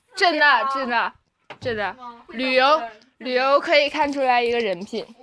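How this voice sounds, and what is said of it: Heavily accented Northeastern Mandarin. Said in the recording (Chinese): “口音特别重的普通话...我就是辽宁的，我就是东北的，怎么的？我就是有口音。”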